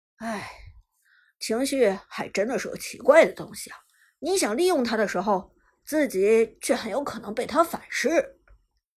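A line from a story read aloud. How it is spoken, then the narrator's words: Sighing. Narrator (Chinese): Lucky 不由得 叹息道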